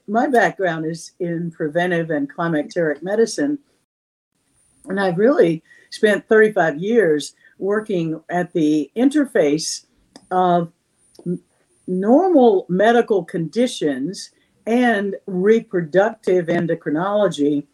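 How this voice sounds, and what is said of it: Slightly raspy voice. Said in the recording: “I have some allergies, so if I'm coughing a little bit, my voice is a little raspy”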